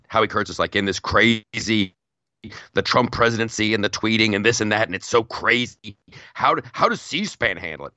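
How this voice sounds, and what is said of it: Imitates another person's voice. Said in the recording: “I have to do my Howie Kurtz voice”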